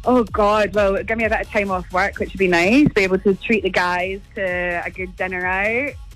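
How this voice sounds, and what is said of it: Scottish accent. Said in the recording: “I love your Scottish accent. You're from Scotland, are you?”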